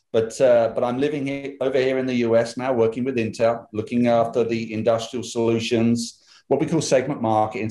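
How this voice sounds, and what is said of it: British English accent. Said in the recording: “you can tell by my accent. I come from this little island outside of Europe there, or, you know, called the UK.”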